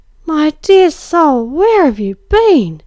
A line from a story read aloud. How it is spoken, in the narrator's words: she cried, as I stood staring at her, dumb with surprise and relief